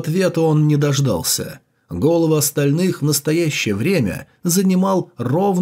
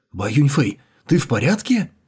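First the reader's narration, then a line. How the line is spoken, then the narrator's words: Distant exclamation. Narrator (Russian): воскликнул издалека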